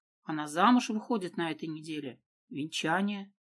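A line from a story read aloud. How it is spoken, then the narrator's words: Muffled, hollow voice. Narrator (Russian): глухим голосом произнес Фризов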